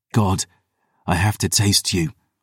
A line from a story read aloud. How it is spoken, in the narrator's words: I whispered